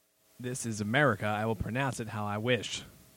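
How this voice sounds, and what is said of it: Colonel Sanders-style Southern accent. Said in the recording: “That was very Colonel Sanders sounding of you. ... with that accent?”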